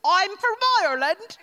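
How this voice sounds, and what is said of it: Attempted Irish accent. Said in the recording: “I wonder if I could do an Irish accent. ... how to speak with an Irish accent ... Do it confidently.”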